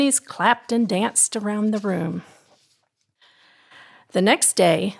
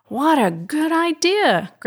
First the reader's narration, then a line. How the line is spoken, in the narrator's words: Granny Cleo exclaimed